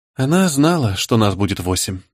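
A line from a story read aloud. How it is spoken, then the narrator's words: Grim. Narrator (Russian): мрачно проговорила Неда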